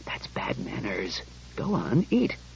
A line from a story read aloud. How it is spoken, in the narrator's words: mumbled